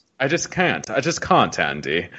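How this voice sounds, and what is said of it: Put-on British accent. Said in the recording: “No British accent.”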